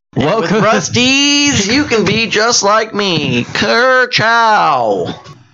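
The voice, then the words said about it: Cartoon race car character impression. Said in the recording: “a Lightning McQueen impression ... that's Owen Wilson when he's Lightning McQueen”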